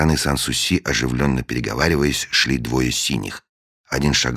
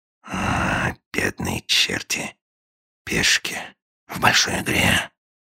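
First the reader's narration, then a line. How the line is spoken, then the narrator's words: Sighing whisper. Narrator (Russian): со вздохом прошептал агент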